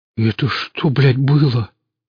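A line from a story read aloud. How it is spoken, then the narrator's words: Breathless exhale. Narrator (Russian): выдохнул Хор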